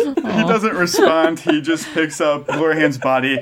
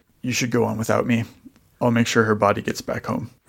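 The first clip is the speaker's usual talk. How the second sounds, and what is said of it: Coarser, rougher character voice. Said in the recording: “his voice sounds different, sounds coarser”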